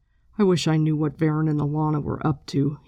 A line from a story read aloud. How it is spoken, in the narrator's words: he muttered